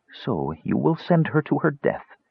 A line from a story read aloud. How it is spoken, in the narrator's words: LaDonna murmured, looking at Parsalian in amazement